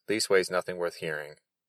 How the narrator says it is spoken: said the soldier hastily

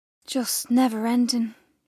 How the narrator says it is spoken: she sighed

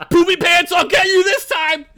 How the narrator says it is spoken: he yelled himself awake

